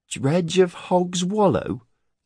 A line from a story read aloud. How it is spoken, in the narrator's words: Cade whined